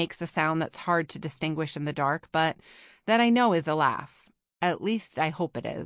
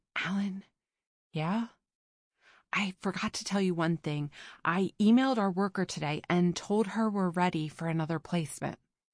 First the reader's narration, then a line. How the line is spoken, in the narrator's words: whisper